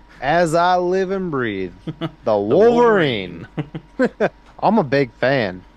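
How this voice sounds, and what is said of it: Southern accent imitating another person. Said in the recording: “just a southern accent, but like tonality, that was very close to how he actually sounds”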